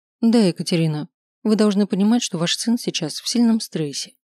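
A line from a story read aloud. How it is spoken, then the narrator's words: Softly. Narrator (Russian): говорит она мягко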